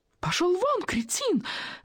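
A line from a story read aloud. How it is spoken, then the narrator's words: Shrieking reply. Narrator (Russian): визжала в ответ Волочковская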